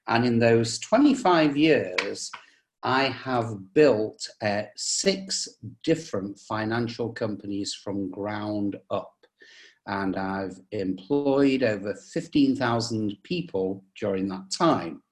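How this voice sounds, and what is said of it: English accent. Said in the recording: “you can probably tell from the accent, I come from England”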